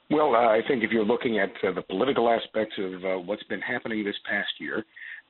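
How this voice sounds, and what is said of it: Slightly congested voice. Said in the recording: “I sound a little bit congested, perhaps ... my voice is a little bit different today”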